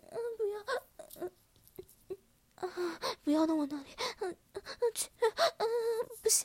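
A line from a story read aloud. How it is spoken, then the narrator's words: Humiliated pleading. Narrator (Chinese): 羞辱的哀求着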